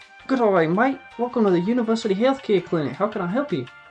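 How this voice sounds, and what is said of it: Put-on Australian accent. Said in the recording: “Can you do Australian? ... Yeah, I can do Australian.”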